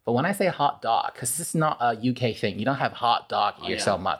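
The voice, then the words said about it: Mandarin-based mixed American-British English accent. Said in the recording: “It's all over the place right now. Mandarin base, a mixture of American and British English.”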